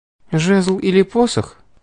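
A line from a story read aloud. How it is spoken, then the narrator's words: Unenthusiastic, sad sigh. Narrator (Russian): Без особого воодушевления спросила девушка и вздохнула опечаленно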